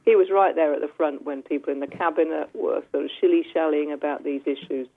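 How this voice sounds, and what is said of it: English accent. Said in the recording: “who's English, as you can tell by her accent”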